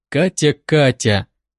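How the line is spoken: Quiet, smiling, to himself. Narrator (Russian): тихо говорил он себе, улыбаясь

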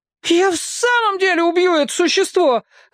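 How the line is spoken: Yelling. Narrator (Russian): завопил Дульсинея

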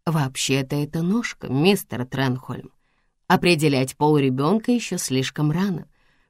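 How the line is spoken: Soft. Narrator (Russian): мягко сказала доктор Уайс

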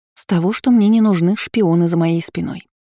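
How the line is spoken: Plain. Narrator (Russian): сказала ей

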